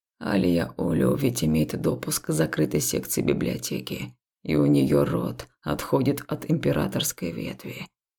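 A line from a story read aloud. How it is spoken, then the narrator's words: Muttering. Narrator (Russian): пробормотал он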